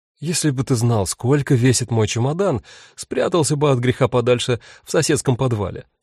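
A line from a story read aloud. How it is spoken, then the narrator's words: Laughing. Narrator (Russian): рассмеялась Рут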